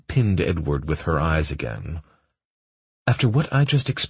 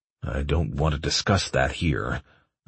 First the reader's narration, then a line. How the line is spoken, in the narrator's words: I growled